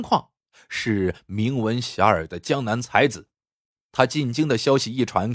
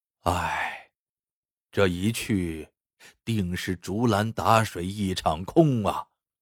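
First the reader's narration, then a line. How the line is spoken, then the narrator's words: Long lamenting sigh. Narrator (Chinese): 张道士仰天长叹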